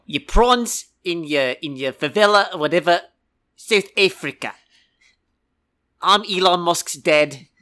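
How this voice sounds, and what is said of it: Put-on South African accent. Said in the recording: “Can you actually do a South African accent? ... You have to kind of clip off the ends of your words.”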